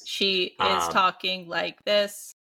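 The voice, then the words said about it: Flat monotone robot voice. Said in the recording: “like if you ask any child to do a robot voice, the actress is doing that voice ... talk in like monotone ... just a little bit more aggressive, a little bit more anger”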